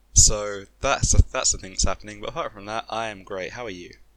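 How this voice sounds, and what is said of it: Sick, rough-sounding voice. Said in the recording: “my voice isn't great because I'm a bit sick”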